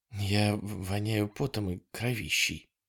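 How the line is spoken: Muffled mumble. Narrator (Russian): пробормотала Дана где-то в районе его шеи

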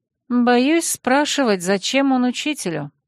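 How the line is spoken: Sigh in the silence. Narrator (Russian): вздохнула я в наступившей тишине

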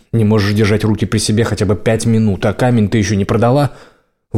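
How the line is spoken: Angry snort. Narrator (Russian): Лайла сердито фыркнула

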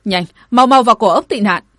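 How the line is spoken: Joyful shout. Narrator (Vietnamese): Hắn vui mừng quá đỗi, bảo hộ hét lên

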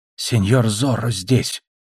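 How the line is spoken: Whispered. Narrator (Russian): шепнул

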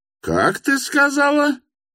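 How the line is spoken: Mother about to shriek. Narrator (Russian): приготовилась была опять взвизгнуть мамаша

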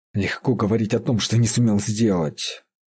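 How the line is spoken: Grumbling. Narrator (Russian): проворчал он

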